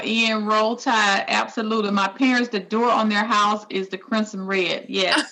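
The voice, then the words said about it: Southern American accent. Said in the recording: “I don't have a beautiful Southern accent like you”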